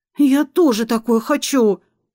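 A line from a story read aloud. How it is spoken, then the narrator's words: Whining woman. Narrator (Russian): заскулила фаворитка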